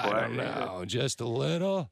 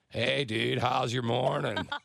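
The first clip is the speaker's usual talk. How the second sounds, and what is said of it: Imitates another person's voice, exaggerated. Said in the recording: “I'm going to talk to you like you talk to you ... I think you're exaggerating a little bit ... I think it sounds pretty spot on”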